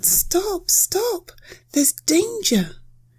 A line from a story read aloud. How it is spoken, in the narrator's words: the sparrow cried out